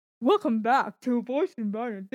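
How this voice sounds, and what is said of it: Imitates another person's voice. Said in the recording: “my Chad impression”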